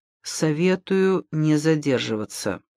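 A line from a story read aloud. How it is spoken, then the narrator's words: Whispered. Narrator (Russian): шепнул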